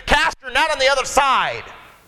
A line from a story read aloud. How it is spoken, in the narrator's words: he called out to him, and he said